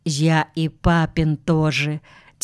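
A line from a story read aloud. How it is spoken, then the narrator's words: Quiet small child. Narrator (Russian): тихо ответил пятилетний малый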